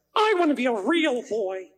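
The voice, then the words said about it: Pinocchio character voice. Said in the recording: “my Pinocchio voice ... that is spot on ... That inflection is perfect”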